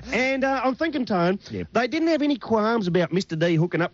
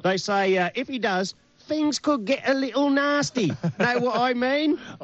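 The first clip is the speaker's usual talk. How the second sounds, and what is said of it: Put-on Cockney accent. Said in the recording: “You like my Cockney accent? ... Michael Caine's just popped by.”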